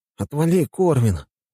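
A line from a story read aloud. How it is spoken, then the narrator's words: Sleepy voice. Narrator (Russian): сказал я ему сонным голосом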